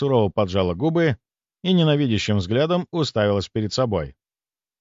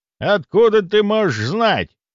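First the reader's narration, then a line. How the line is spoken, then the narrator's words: Scoffing grunt. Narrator (Russian): хмыкнул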